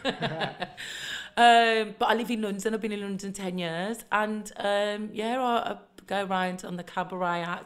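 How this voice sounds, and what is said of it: Mild Birmingham accent. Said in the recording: “originally from Birmingham, in case you can't tell by the really mild accent.”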